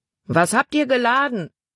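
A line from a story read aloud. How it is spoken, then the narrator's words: Man calling out. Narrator (German): rief ein Mann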